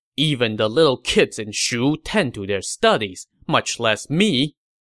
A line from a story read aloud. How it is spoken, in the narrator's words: Qin Mi said sternly